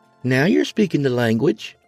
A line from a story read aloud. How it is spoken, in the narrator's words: Lorna chirped